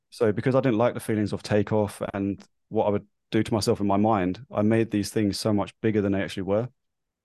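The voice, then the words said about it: London accent, slightly mixed. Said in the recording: “I am obviously from London. I now live in New Zealand. So my accent, as you can tell, might be slightly skew-iff.”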